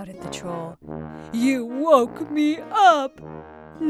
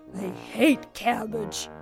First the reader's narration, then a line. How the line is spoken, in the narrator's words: grumbled the troll